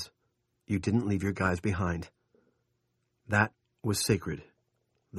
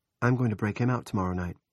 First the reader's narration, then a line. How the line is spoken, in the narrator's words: Jackie said, more calmly than she felt